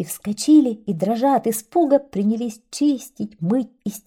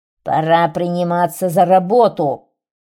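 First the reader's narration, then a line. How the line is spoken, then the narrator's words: Giant's roar. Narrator (Russian): великан зарычал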